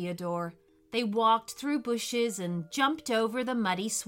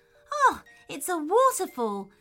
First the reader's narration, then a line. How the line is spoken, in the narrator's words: exclaimed Theodore